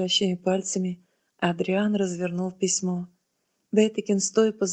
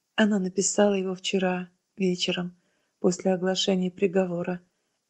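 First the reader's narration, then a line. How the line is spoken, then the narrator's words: Soft answer. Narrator (Russian): мягко ответил отец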